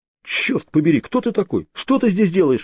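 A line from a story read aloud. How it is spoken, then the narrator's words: Frightened exclamation. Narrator (Russian): воскликнул Крис, испуганно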